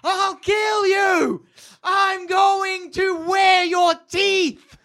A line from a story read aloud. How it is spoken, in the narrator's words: She screams into the crowd